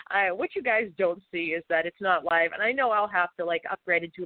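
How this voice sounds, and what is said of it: Boston accent, voice rough from cold. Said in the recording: “my, you know, Bostonian accent talking funny. It's going to be more so today ... I had a massive cold last week ... clear throat”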